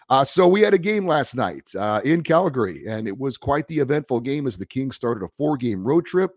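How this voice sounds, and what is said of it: Raspy, sick-sounding voice. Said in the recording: “you may be able to hear in my voice that uh, I am fighting a bit of a bug... I, don't sound as uh, wonderful as I normally do... my sexy raspy voice”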